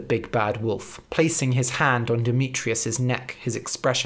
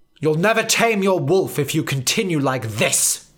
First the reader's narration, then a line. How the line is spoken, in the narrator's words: snapped Professor Banner in his head